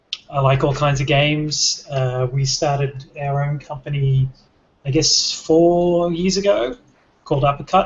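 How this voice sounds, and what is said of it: Australian accent. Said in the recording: “I'm Australian, if that's not obvious from the accent.”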